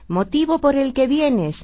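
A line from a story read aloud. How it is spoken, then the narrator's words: Children shouting in chorus. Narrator (Spanish): gritaron los niños a coro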